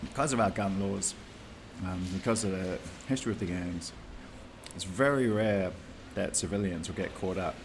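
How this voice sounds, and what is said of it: New Zealand accent. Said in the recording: “We call it P in New Zealand ... That's the New Zealand accent.”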